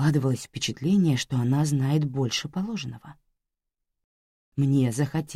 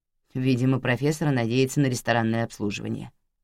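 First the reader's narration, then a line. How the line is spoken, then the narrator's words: Grumbling. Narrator (Russian): пробурчал Блю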